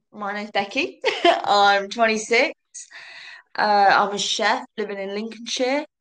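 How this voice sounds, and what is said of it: Slight southern English accent. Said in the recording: “she does have a bit of a southern accent”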